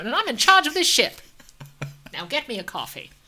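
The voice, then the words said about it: Imitates another person's voice. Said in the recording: “I talk like Catherine Hepburn ... my Janeway impression. It's really good.”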